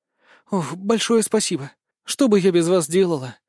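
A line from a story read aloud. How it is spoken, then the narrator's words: Relieved girl's exhale. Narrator (Russian): С облегчением выдохнула девчонка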